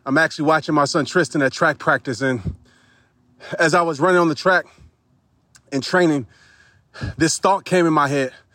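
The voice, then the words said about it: Slightly out of breath. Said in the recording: “I'm a little bit out of breath because I'm actually in the middle of working out”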